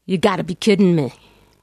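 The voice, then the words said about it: New York accent. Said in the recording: “That's my New York accent, you know, and it's coming out.”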